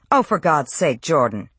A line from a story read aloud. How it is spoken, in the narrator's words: Diana snapped